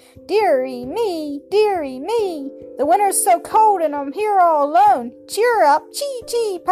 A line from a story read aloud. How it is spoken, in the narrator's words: piped the robin